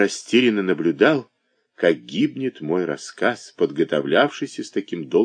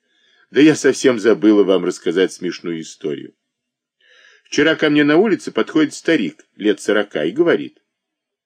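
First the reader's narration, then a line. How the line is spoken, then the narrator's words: Laughing exclamation. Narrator (Russian): не дожидаясь ответа, расхохотаться и вскрикнуть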